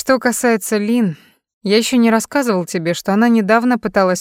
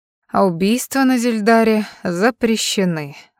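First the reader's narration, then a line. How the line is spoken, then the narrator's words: Sighing. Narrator (Russian): вздохнул Коннор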